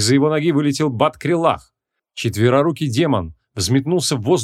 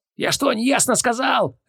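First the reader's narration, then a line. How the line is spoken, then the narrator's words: Terrified barking shout. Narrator (Russian): рявкнул Поляков с ужасом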